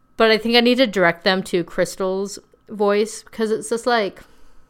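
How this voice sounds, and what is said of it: Heavy vocal fry. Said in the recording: “my vocal fry is insufferable”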